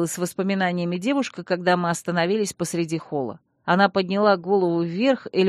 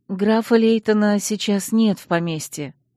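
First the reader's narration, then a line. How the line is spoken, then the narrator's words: Sighing. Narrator (Russian): вздохнула я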